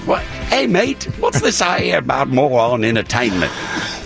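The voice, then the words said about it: Muddled accent impression of Graham Norton. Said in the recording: “Graham Norton came up to me... he doesn't even have that accent... I don't even know what country that's from, but I'm impressed... A little Greek.”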